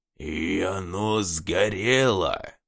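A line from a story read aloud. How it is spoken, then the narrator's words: Hoarse indignation. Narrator (Russian): сиплым голосом возмутился Иващук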